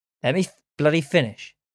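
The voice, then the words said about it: Shouting. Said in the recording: “sorry for shouting.”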